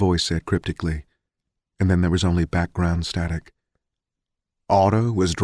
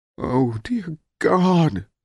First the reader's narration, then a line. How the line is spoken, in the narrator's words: Amelia Williams moaned